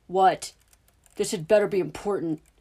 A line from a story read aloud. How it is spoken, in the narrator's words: snarled